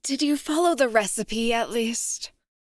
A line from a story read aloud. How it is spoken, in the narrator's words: Her voice wobbled